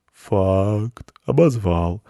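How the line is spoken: Lazy yawning cat. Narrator (Russian): лениво зевнул кот

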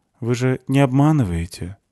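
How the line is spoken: Sad young woman. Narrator (Russian): грустно спросила девушка

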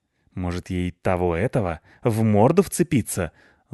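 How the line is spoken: Spiteful question. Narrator (Russian): злобно спросил Рыжопиус

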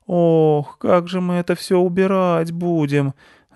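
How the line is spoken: Groaning mothers. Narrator (Russian): застонали мамы

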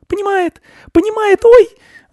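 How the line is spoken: Shrieking. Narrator (Russian): взвизгнула Анечка

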